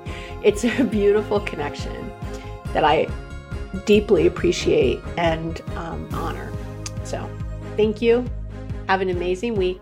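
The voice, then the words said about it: Hoarse, tearful voice. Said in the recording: “My voice is getting hoarse because I start to cry.”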